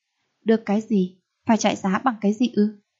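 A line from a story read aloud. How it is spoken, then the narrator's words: Cold voice. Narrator (Vietnamese): Khổng Tu Thành nói một cách lạnh lùng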